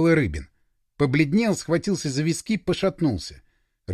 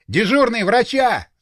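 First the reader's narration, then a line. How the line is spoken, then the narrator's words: Yelled. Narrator (Russian): заорал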